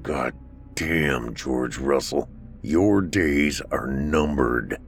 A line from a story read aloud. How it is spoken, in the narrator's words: he mumbled to himself